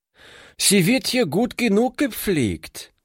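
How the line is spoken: Female call. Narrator (German): rief sie

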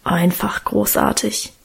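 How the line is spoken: Reverent mumble. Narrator (German): brummelte Guste andächtig

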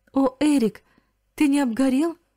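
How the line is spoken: Overjoyed female exclamation. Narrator (Russian): воскликнула она вне себя от радости

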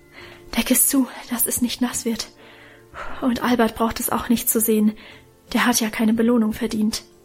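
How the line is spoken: Breathless. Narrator (German): sagte er atemlos

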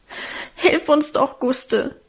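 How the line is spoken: Sobbing. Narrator (German): schluchzte Alwine

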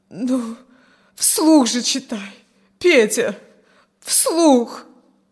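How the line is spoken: Moan. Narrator (Russian): простонала

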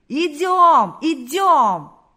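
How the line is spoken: Crowd shouting. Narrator (Russian): Закричали все, кто еще держался на ногах

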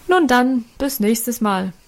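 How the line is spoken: Plain. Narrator (German): sagte der andere

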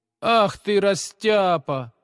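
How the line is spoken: Mocking taunt. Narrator (Russian): насмешливо поддел его двоечник Витя, который не выносил отличников

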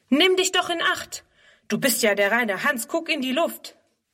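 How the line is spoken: Called out. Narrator (German): ruft er

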